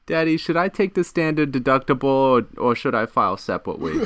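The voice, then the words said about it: Whiny baby voice. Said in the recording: “baby voice”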